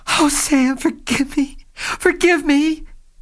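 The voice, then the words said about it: Choked, crying voice. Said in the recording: “she cried in a choked voice.”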